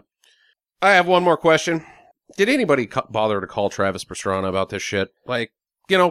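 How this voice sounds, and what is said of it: Usual voice. Nothing is said of it.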